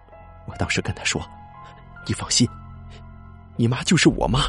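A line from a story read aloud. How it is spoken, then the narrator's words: Choked, crying. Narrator (Chinese): 孙大哥就哭了，一边哭，哽咽着说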